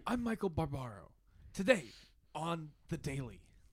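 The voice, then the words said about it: Soft, breathy whispery host voice. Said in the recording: “Let's get everybody's best I'm Michael Barbaro lines. ... He does kind of whisper a little bit.”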